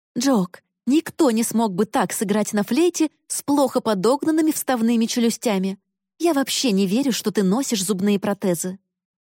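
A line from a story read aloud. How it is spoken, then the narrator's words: Exasperated exclamation. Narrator (Russian): мама с крайним раздражением воскликнула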